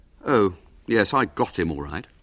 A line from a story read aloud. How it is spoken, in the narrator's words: said William coldly